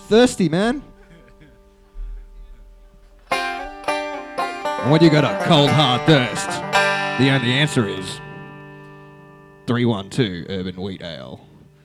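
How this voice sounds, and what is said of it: Low-pitched Australian accent, beer-ad voice. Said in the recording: “That's a really Australian accent ... why is your Australian accent always so low? ... imitating the guy from the VB commercial”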